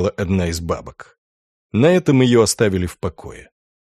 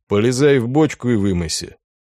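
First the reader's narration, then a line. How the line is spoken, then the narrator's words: Even commanding voice. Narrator (Russian): человек в маске ровным голосом приказал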